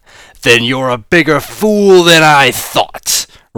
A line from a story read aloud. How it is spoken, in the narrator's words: roared the plutonium boss